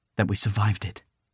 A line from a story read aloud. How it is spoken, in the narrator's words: whispered her mother